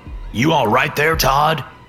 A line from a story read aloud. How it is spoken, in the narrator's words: Darren said, no longer needing to shout to be heard